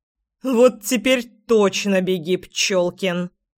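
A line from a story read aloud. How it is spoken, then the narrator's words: Menacing growl. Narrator (Russian): Грозно прорычала я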